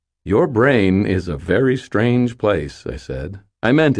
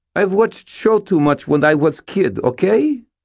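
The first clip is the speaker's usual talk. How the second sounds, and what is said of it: Strained teenage voice, Russian accent. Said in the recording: “in a strained teenager tone. She had a Russian accent that sounded exactly like Sonya.”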